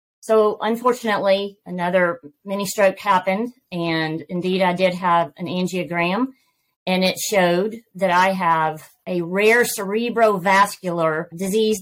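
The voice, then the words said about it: Southern American accent. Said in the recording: “you catch my Southern accent”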